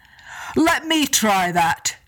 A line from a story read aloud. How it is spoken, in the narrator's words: Ben and Donner cried